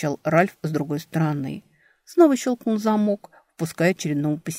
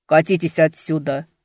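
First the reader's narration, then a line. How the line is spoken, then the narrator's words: Barked. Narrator (Russian): рявкнул Эберт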